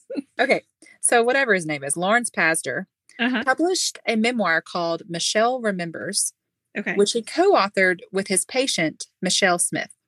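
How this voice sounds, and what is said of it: Southern American accent. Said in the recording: “it's probably just my accent ... It's just that I'm Southern.”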